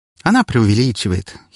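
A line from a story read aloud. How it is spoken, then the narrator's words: Pleased giggle. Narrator (Russian): хихикнула Вика с довольной улыбкой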